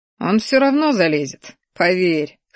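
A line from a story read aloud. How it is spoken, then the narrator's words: Chuckling. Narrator (Russian): хохотнул я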